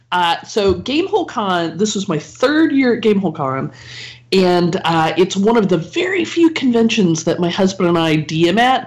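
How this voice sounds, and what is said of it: Voice affected by a cold. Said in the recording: “I just want to apologize ahead of time for the quality of my voice. ... I have a bit of a cold,”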